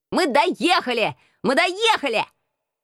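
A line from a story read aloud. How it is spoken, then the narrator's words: Excited shouting. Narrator (Russian): кричал он возбужденным голосом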